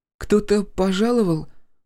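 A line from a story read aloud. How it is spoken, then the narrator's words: Sleepy question. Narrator (Russian): сонно спросила Василиса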